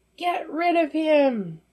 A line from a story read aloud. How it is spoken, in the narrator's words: The crowd that followed kept shouting